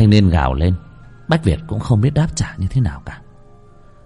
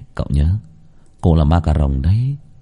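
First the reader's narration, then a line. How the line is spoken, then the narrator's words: Sighing. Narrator (Vietnamese): thở dài lên tiếng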